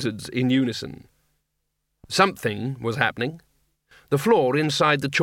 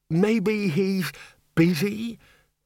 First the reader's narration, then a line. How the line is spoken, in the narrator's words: the bursar quavered